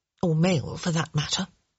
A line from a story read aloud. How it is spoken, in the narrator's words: she muttered